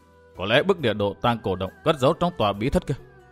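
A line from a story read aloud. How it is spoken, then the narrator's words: Muttering. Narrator (Vietnamese): Thạch Kiếm Cửu lẩm bẩm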